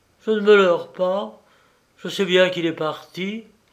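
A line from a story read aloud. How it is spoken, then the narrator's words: Exclaiming. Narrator (French): s'écrie-t-elle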